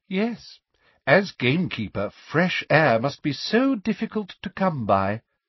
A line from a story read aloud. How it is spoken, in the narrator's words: said Umbridge sweetly